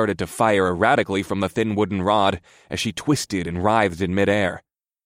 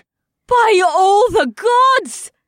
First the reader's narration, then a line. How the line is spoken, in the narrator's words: screamed inside my mind